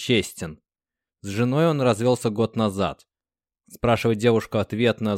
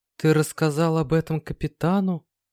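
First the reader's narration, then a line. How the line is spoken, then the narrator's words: Sleepy question. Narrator (Russian): сонно спросила Марьяна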